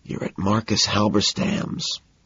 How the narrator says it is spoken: I whisper

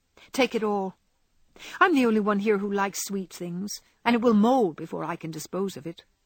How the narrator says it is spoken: answered Amy, with a sigh

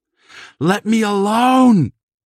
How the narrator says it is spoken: he shrieked

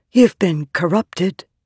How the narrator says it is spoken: Shallan whispered

